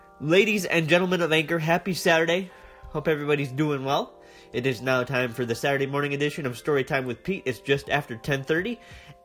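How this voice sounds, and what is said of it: Deeper voice, congested from allergies. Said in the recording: “my voice sounds a little different this morning, that's because I'm dealing with allergies... that's why you're getting a deeper voice”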